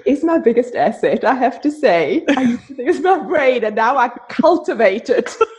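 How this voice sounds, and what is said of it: South African accent. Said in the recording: “why do you have such an amazing accent? ... Because I'm from South Africa.”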